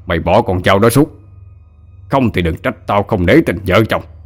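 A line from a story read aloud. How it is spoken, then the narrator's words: Furious roar. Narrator (Vietnamese): Ông ta điên tiết gầm lên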